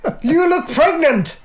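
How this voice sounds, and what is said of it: Poor attempt at Polish accent. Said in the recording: “I don't know how to do a Polish accent... On this Polish accent... What even accent is that?... Sounds Chinese.”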